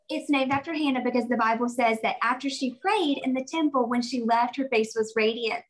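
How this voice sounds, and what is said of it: Very Southern American accent. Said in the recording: “I'm from South Carolina, so I have a very Southern accent.”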